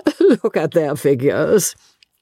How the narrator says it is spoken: laughed Miss Lavish

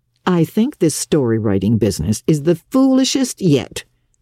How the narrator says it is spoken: scoffed Marilla

